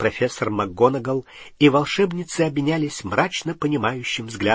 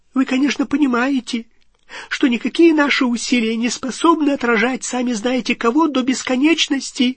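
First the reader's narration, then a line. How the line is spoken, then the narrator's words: Squeaky. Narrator (Russian): пропищал Флитвик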